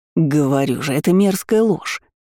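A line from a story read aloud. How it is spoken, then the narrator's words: Reluctantly forced out. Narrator (Russian): наконец выдавил из себя кузен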